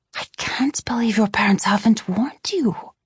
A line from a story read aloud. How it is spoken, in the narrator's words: she whispered